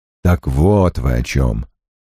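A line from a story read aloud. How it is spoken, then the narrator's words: Grumble. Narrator (Russian): проворчал Крэмер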